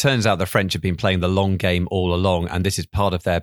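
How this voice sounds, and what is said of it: Usual voice. Nothing is said of it.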